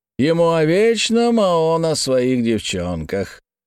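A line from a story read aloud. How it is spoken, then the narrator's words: Drawling, feigned disappointment. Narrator (Russian): сделанным разочарованием протянул Марсель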